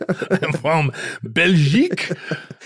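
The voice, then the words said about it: Exaggerated fake French accent. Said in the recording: “despite my outrageous accent”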